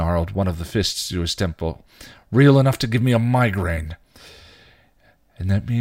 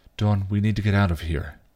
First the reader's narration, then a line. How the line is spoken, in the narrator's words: Buffy said softly